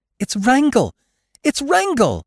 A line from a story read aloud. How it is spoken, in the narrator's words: cried Jane Witherstein